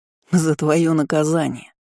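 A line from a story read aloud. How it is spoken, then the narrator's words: Friends toasting in unison. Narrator (Russian): отсалютовали друзья, все как один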